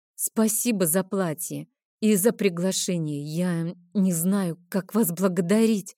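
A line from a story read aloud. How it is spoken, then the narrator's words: Embarrassed, forced out. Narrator (Russian): смущенно выдавила из себя я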